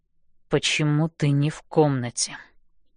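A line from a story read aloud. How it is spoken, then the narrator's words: Quiet but firm. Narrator (Russian): начинает Хардин тихо, но решительно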